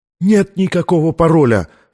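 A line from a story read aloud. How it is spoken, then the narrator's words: Cried out in agony. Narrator (Russian): вскрикнул от нестерпимой боли ученый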